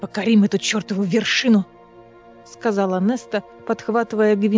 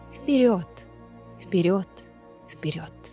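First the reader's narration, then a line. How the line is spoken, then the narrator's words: Eerie whisper from mountain. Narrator (Russian): сама гора шептала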